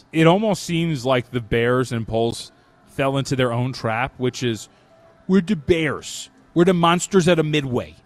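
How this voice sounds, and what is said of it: Put-on Chicago accent. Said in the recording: “My Chicago accent went out the window after a few words”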